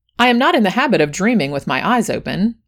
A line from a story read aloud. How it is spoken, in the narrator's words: I replied quickly